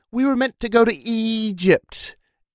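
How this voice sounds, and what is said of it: Attempted British accent. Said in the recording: “I'll try my best British accent.”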